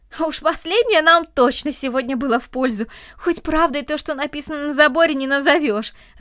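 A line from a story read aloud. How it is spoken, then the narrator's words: Laughing. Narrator (Russian): рассмеялся Андрей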